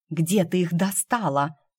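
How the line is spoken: Whispering. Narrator (Russian): зашептала я Лиде

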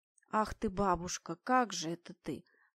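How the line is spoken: Grumbled. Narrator (Russian): проворчал жандарм

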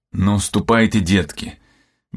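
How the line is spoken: Gentler, affectionate tone. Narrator (Russian): добавил Бриан более ласковым тоном

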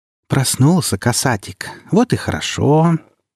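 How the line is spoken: Tender cooing. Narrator (Russian): ласково проворковала вошедшая

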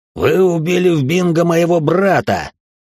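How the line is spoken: Growled. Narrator (Russian): прорычал он

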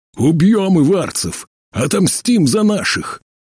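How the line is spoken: Hoarse crowd chanting. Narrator (Russian): Его крик подхватили такие же хриплые голоса

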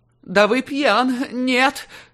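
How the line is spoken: Shrill squeak. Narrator (Russian): Хочу говорить уверенно, но в итоге получается визгливый писк

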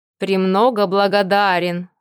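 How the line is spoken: Dry, curt. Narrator (Russian): сухо кивнул мужчина

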